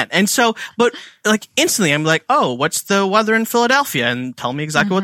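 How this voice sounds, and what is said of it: Indian accent. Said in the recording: “sometimes Alexa can understand my accent. I'm Indian”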